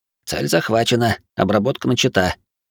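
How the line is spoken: Boy's low mumble, giggling. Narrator (Russian): полголоса пробурчал мальчишка и захихикал

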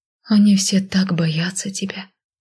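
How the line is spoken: Whispered. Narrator (Russian): прошептала я

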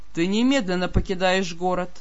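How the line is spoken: Dry command. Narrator (Russian): сухо приказал повелитель

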